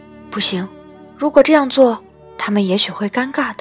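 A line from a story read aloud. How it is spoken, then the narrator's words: Whispering. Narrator (Chinese): 老板娘在老板耳边轻声说道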